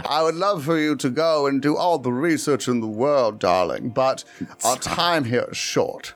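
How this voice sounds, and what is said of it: Flirtatious old grandmother voice. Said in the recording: “you sound like my grandma hitting on a young man”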